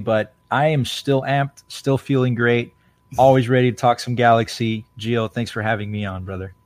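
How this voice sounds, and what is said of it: Hoarse, coarse voice. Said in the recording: “my voice is still a little coarse from all that yelling I did yesterday”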